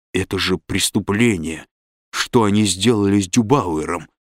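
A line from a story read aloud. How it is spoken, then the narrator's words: Through gritted teeth. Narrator (Russian): произнес сквозь зубы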